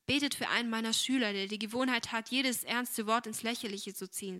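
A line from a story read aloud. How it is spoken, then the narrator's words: Plain. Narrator (German): sagte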